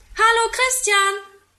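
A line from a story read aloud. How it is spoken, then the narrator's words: Calling from a window. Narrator (German): ruft er aus dem Fenster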